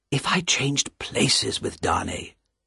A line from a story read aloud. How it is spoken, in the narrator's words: whispered to himself